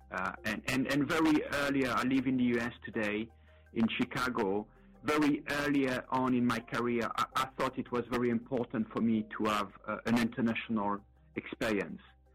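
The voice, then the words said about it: Light foreign accent. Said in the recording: “my light accent, I was not raised and born in Austin, Texas”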